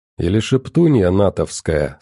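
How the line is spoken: Plain. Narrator (Russian): сказал Выдра

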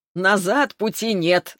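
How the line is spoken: Laughing. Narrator (Russian): засмеялся он

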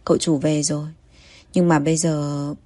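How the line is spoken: Sighing. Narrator (Vietnamese): chị Ma thở dài

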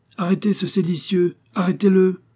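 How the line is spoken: Escort shouting. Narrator (French): s'écriait l'escorte

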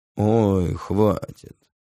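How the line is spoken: Affected, mannered interruption. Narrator (Russian): манерным голосом прерывает меня двойник

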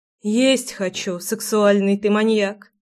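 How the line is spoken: Sighing. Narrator (Russian): вздохнула Руслана

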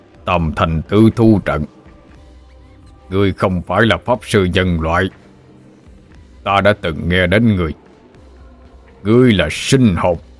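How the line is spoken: Growling. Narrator (Vietnamese): Đạo tặc bị vây khốn, gầm gừ

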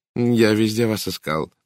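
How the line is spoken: Plain. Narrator (Russian): сказал мужчина

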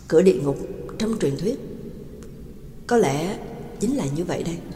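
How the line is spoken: Muttering. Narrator (Vietnamese): Trắc Mộc Cường Ba lẩm bẩm

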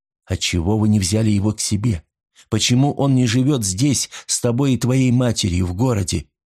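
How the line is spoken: Plain. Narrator (Russian): спросил Роли

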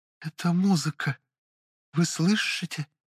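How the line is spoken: Quiet reply. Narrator (Russian): так же тихо отозвалась она

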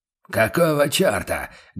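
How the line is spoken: Startled barking shout. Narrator (Russian): гаркнул фон Редер, уткнувшись в спину Курта

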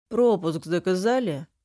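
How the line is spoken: Lazy question, man. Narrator (Russian): Лениво интересуется мужчина

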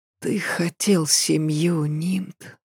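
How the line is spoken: Whisper. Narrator (Russian): прошептала она

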